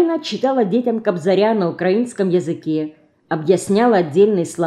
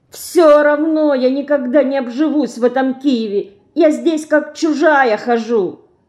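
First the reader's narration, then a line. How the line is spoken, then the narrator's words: Whining. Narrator (Russian): хныкала Динка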